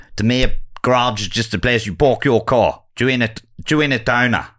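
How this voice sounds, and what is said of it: Put-on South African accent. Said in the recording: “This is my attempt at South African.”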